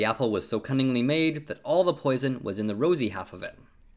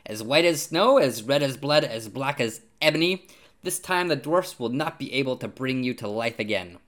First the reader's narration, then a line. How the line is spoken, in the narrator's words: the queen laughed aloud and cried